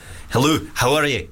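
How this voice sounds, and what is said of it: Put-on Scottish accent. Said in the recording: “Scottish.”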